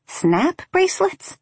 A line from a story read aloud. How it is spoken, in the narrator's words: I said, and in spite of everything, I laughed